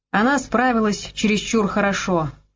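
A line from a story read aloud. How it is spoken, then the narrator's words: Grumbling. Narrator (Russian): проворчал Слейд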